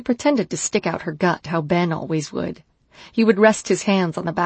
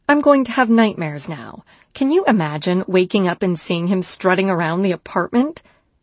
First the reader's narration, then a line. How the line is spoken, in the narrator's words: She giggled